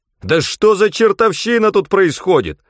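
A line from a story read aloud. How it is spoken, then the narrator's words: Yelling. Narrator (Russian): заорал я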